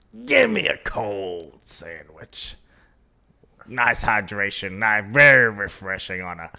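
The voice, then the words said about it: Imitates another person's voice. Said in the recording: “This is not how you talk, by the way. I'm just doing this stupid impersonation.”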